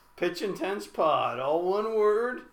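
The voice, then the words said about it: Announcer-style radio voice. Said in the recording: “I like your radio voice.”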